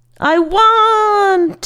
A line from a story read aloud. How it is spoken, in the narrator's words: Sho screamed as he fell